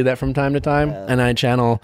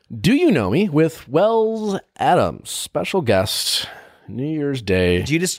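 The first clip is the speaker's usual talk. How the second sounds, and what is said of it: Radio announcer voice. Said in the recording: “You went into radio voice right there.”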